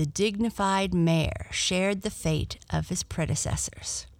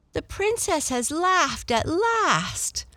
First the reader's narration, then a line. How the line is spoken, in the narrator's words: they all cried with joy